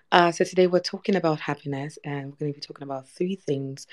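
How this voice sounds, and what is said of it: Voice sounds off, strained. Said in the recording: “I'm sorry if my voice is wonky. I've had quite the weekend”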